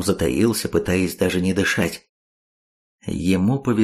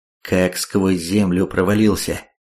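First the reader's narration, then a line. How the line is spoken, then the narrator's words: Plain. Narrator (Russian): ответил ему другой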